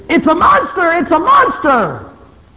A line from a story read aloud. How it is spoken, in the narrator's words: screaming